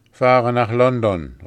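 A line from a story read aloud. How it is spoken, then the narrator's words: Calling out. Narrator (German): rief sie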